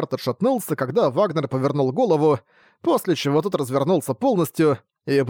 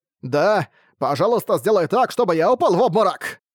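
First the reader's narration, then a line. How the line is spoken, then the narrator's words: Shouted. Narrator (Russian): крикнул Вагнер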